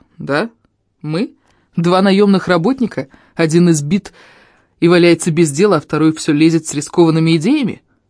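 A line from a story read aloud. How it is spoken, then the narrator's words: Sardonic snort. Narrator (Russian): хмыкнул Фари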